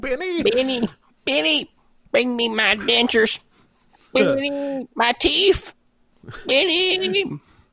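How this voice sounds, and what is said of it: Old grandma voice. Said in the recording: “you went right into like 90-year-old grandma”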